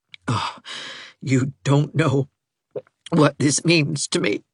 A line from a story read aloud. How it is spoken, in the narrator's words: he said brokenly at last